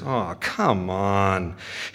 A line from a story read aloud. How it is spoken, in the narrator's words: Zame mutters